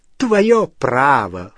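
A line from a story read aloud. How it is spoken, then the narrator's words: Snorting. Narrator (Russian): фыркнула Беллатриса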